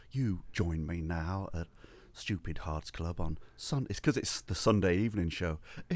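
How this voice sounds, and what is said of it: Low, whispery voice. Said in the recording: “whispering Bob bloke? You're like talking like this ... talking low. like whispering”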